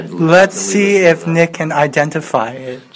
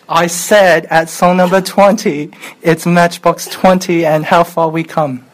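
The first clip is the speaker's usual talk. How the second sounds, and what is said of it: Attempted British accent. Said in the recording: “Are you trying to do a British accent?”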